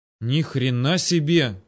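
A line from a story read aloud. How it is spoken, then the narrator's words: Breathless exclamation. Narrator (Russian): выдохнул кто-то у меня за спиной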